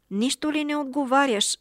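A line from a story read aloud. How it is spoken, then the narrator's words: Exclaiming. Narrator (Bulgarian): възкликна той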